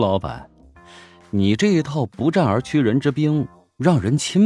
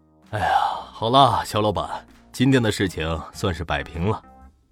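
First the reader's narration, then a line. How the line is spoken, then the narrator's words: Sighing exclamation. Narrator (Chinese): 牛业感叹道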